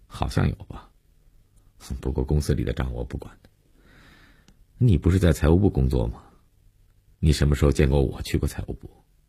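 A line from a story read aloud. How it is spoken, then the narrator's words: Calm, indifferent. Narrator (Chinese): 没有一点被揭露的尴尬和紧张，淡淡的，无所谓的承认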